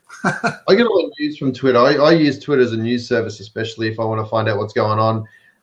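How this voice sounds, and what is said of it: Australian accent. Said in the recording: “obviously I've got an accent, so I'm an Aussie ... Melbourne where I'm from”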